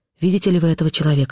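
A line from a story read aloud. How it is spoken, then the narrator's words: Plain. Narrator (Russian): сказал Б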